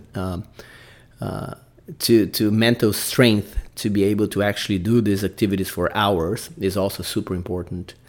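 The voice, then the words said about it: Brazilian accent in English. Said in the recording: “I'm Brazilian, guys. I got to put up my accent.”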